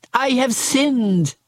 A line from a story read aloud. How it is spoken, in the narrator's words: again cried Judas